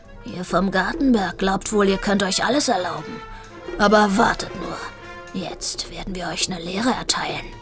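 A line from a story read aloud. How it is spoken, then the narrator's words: Big cat's growl. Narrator (German): Ein großer Kater knurrte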